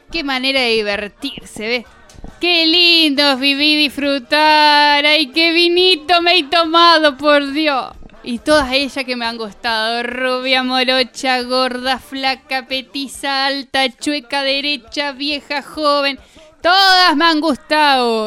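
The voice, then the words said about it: Lucifer character, porteño accent, strong Rs. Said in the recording (Spanish): “Habla con acento porteño marcando las R.”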